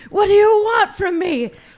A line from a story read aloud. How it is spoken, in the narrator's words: She shouted